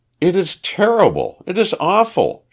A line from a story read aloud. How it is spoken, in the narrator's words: she cried